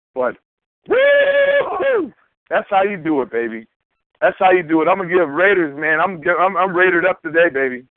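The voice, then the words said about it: Hoarse, worn-out voice. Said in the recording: “my phone might sound jacked up. My voice is definitely gone.”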